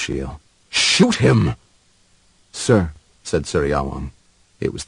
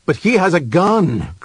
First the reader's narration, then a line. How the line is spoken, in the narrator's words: cried Ashiel